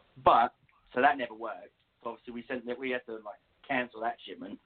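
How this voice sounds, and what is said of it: English accent. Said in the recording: “because of my accent, one of the guys just assumed I was from Australia ... there's no Australian here. This is English, 100%.”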